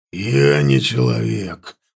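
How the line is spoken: Growling beast. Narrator (Russian): прорычал ворг

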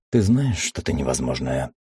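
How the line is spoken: Tired, smiling. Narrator (Russian): устало улыбнувшись, сказал

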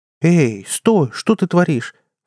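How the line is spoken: Fake exclamation, young woman. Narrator (Russian): фальшиво воскликнула девушка

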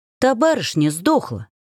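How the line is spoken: Snapping retort. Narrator (Russian): огрызнулась

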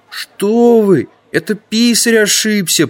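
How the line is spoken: Whimpering youth. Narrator (Russian): прохныкал один из юнцов

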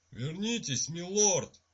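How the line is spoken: Terrified servant screaming. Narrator (Russian): в ужасе закричал камердинер

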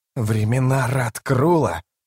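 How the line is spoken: Hissing. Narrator (Russian): прошипел Рад престол тени

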